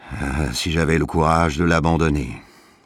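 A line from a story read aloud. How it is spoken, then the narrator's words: Sighing. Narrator (French): soupirait de temps à autre M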